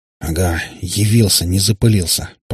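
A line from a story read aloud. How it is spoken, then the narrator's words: Quiet secretive mutter. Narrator (Russian): пробормотал стараясь говорить тихо чтобы любопытный сосед не разобрал о чем идет речь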